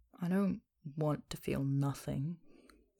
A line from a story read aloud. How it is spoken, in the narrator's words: Sophia mutters